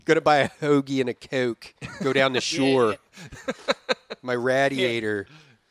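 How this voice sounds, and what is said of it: Heavy Philadelphia South Jersey accent. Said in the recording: “I had a really hard Philadelphia accent... that's the Philadelphia accent, South Jersey accent,... crazy heavy Philadelphia”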